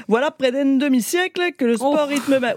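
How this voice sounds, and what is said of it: Attempted imitation of another's accent. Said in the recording (French): “il est hyper dur à faire votre accent ... je suis chroniqueuse, moi, je suis pas Jean Roucas”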